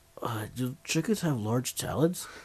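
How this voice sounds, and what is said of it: Napoleon Dynamite impression. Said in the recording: “Napoleon Dynamite ... That's a good impression there.”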